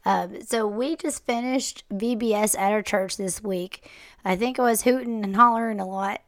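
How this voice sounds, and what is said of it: Hoarse, partly lost voice. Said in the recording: “my voice is like halfway out... you probably can't tell really what I'm saying, and my voice is probably going to end up worse”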